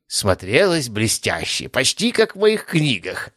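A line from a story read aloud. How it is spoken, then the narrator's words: Old man's chuckle. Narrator (Russian): хохотнул старик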